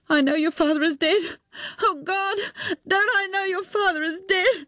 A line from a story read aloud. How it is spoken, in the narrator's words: She bent her head into her lap and sobbed and sobbed